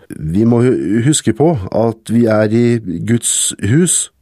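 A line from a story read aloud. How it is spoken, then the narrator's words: Stammering. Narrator (Norwegian): stammet han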